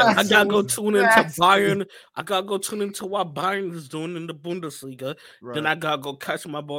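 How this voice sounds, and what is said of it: Usual voice. Nothing is said of it.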